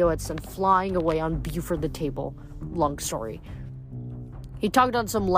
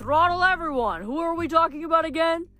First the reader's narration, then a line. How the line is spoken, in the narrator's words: The two began shouting at each other again